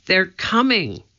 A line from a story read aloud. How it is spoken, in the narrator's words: Annie cried